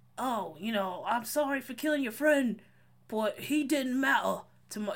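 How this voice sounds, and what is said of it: Put-on British accent. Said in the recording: “This accent... This British thing you're doing. It's upsetting me.”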